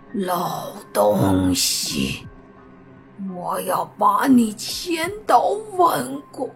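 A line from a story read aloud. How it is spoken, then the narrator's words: Furious, through gritted teeth. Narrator (Chinese): 咬牙切齿的说道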